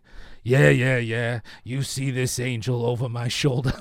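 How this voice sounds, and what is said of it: Imitates another person's voice. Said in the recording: “I'm going to try to do this in a Vin Diesel voice”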